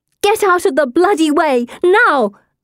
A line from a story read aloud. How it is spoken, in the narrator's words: I shout